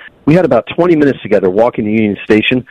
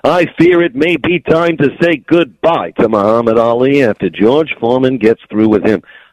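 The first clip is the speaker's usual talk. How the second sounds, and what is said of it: Imitates a sportscaster's voice. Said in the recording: “I got to do all of my impersonations, like Howard Cosell.”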